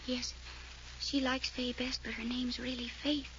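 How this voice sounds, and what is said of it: Fearful whisper. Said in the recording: “why that fearful whisper?”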